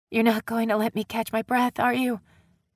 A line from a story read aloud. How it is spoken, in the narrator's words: Peyton breathed out over her skin